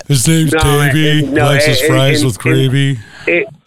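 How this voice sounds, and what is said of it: Imitates another person's voice. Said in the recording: “my awesome impersonation”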